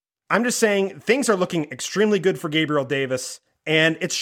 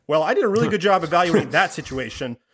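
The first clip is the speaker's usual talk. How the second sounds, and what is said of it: Sarcastic delivery. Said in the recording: “I'm being sarcastic, Todd. ... That's even a terrible use of sarcasm.”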